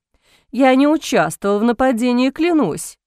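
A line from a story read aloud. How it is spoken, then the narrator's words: Fervent exclamation. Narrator (Russian): Горячо воскликнул мужчина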